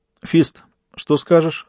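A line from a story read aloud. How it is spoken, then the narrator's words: Plain. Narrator (Russian): спросил Джек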